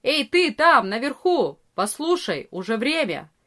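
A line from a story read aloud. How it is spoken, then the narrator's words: Loud shout. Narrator (Russian): Арея кричал громко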